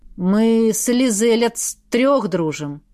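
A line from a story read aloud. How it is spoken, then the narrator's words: Explaining. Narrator (Russian): пояснил он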